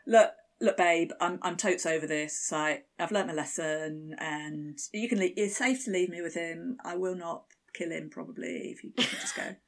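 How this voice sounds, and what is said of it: Put-on Essex-like English accent. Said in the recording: “What accent was that? ... It's a little bit Rylan, maybe. ... A little bit Essex, maybe.”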